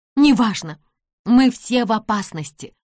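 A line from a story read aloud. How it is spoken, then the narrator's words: Exclaiming. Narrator (Russian): воскликнула Нэнси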